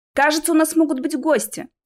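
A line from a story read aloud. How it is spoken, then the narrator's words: Loud repetition. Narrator (Russian): громко повторил я, чтобы меня услышали остальные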